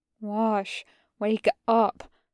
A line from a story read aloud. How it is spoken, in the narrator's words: Tucker murmurs, turning into pleads